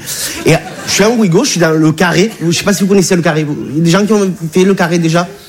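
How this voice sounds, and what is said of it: Regional French accent. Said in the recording (French): “Tu as vu mon accent, je viens pas de Bagnolet.”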